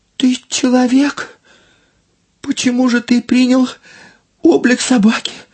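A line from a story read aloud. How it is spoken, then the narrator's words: Exclamation. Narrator (Russian): воскликнула Эмань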